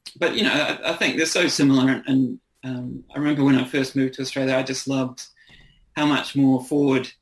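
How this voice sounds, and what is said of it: New Zealand accent. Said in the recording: “my accent ... I don't try to keep a New Zealand accent ... with a slight Aussie twang”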